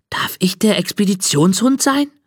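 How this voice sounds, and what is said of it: Whispering. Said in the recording (German): “Flüstert”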